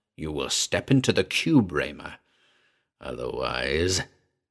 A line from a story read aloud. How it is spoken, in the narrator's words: He rasped